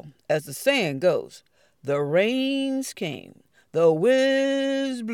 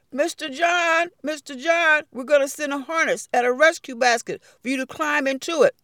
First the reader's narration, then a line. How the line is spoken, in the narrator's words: A rescuer called out